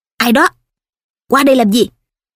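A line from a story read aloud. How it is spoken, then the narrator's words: Shouted question. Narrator (Vietnamese): quát hỏi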